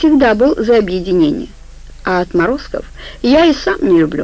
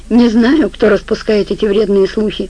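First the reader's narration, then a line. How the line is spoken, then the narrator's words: Calm reply. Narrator (Russian): спокойно ответил ему босс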